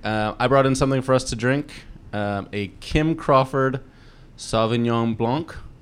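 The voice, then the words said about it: Slight put-on accent. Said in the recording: “you just put on like a little bit of the accent.”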